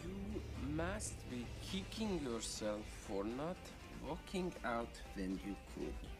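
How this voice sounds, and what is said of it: Unconvincing put-on accent. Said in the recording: “that's a terrible accent.”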